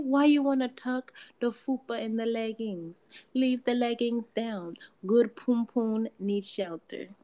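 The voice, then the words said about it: Imperfect put-on Jamaican accent. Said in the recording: “whatever kind of accent I just gave y'all because it wasn't all Jamaican”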